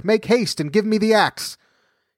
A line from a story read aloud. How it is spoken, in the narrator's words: cried Jack